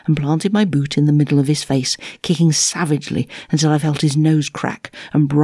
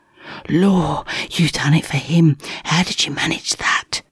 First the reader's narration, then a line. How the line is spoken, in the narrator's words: hissed my hairy cellmate in amazement